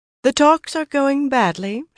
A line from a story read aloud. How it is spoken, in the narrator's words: she said in that high musical voice